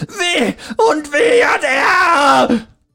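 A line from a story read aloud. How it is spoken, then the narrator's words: Shrill scream, crying. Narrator (German): schrie er nun fast schrill ein letztes Mal, bevor er weinend auf die Knie sank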